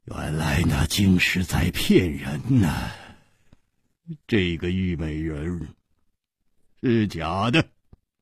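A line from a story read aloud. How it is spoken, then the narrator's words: Laughing. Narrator (Chinese): 万无敌 他笑着说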